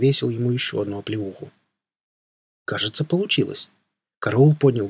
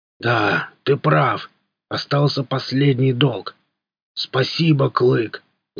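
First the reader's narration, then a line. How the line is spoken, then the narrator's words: Booming strong voice. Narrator (Russian): Загудел он вновь сильным голосом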